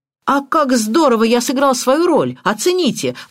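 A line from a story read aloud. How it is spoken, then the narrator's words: Exclaiming. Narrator (Russian): воскликнул Эдмунд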